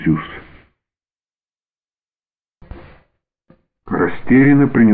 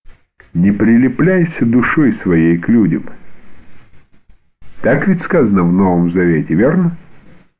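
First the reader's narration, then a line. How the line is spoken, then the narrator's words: Unusually cheerful tone. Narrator (Russian): каким-то необычно веселым тоном произнес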